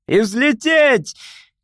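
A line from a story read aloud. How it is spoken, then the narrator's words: Shouted. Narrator (Russian): крикнул он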